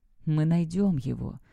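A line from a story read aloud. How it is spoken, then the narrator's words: Whisper. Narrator (Russian): прошептала она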